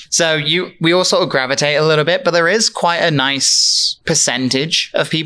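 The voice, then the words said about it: British accent. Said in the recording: “she heard my accent and we both looked at each other and went, British”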